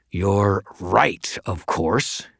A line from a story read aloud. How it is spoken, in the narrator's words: he snarled